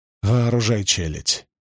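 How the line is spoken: Gritted out between breaths. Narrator (Russian): процедил он между вздохами

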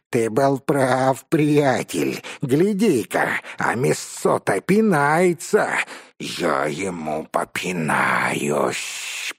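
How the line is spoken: Angry hiss. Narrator (Russian): прошипел разгневанный паук

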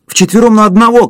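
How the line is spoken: Shouting. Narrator (Russian): крикнул он

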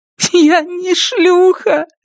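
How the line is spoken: Starting to sob. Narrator (Russian): говорит Элис, начиная рыдать

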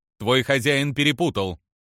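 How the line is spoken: Irritated curt remark. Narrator (Russian): раздраженно бросила гарвианка

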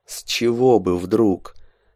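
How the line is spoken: Through clenched teeth. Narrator (Russian): спросил сквозь зубы Андрей

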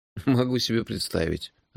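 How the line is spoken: Sighing. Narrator (Russian): вздохнул я

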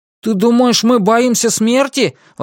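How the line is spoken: Exclaiming. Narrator (Russian): воскликнул Чан Вэйдун

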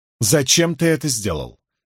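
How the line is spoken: Demanding question. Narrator (Russian): требовательным тоном спросила Морейн

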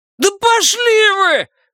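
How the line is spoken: Shrill hysterical yell. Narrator (Russian): завопил Репертон тонким истерическим голосом

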